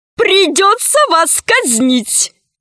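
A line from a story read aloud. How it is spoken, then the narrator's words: Laughing out loud. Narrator (Russian): сказала боевая подруга и расхохоталась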